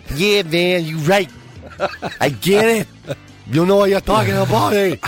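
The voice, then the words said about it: Put-on New York accent. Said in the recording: “Into this New York accent”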